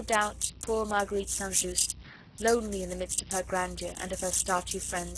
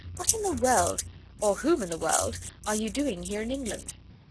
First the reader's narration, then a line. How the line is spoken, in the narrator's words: she added merrily